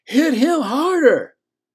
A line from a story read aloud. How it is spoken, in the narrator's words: Uncle Moonpie hollering